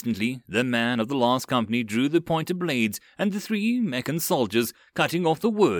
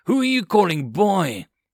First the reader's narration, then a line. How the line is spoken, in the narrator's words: The aide growled